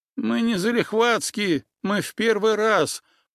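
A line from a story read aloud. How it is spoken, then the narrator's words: Whining. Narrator (Russian): проскулил Олег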